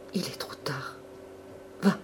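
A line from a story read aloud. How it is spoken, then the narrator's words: Faint collapsing murmur. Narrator (French): murmura Albine en s'affaissant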